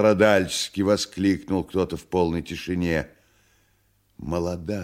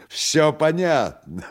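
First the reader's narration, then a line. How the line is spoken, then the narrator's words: Exclamation. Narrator (Russian): воскликнула она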